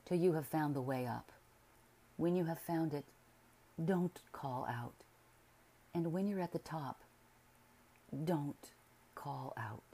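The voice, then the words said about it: Peculiar low voice. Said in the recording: “in his peculiar low voice,”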